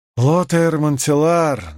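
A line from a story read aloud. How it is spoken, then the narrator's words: Strained voice. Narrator (Russian): натянутым голосом произнес Гавин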